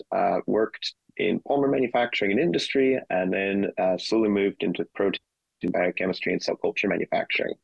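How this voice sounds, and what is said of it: American accent. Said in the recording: “you're hearing this very strange accent ... I'm I'm an American”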